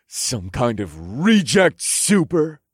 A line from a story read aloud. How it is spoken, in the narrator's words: The CEO snapped at Norma